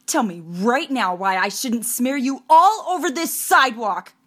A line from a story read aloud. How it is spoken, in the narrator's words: Hair Dye screamed at Amelia